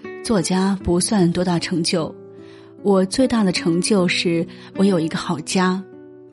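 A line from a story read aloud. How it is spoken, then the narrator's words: Calm, understated reply. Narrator (Chinese): 杨绛却淡淡回道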